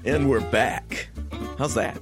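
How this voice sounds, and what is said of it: Deep booming radio announcer voice. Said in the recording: “That's my radio voice. ... your radio big boy voice? ... I did sound taller, didn't I?”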